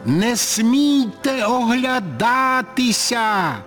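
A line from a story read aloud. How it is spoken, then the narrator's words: Sudden shout. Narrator (Ukrainian): раптом закричав я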